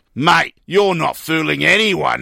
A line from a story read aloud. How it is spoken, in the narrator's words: the barman sneered